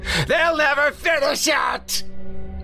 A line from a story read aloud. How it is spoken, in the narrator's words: Its cries became an incoherent wail of rage and agony